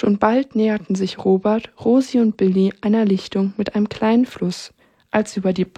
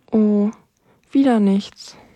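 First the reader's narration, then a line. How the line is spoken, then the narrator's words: Sigh. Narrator (German): seufzte Rosi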